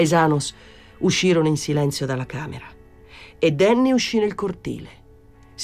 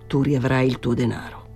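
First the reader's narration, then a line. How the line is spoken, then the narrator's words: Murmuring. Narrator (Italian): mormorò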